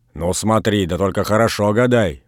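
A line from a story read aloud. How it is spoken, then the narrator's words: Grumble. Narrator (Russian): проворчал Передонов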